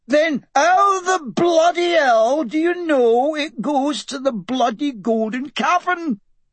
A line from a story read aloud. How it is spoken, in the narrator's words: Hamish's ranting